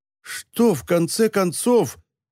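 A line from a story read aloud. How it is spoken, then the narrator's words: Resolute exclamation. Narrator (Russian): воскликнул Стейнвиг, казалось, решившись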